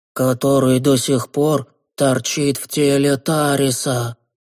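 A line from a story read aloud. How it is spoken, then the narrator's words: Strangled, forced voice. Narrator (Russian): придушенным голосом выдавил Коин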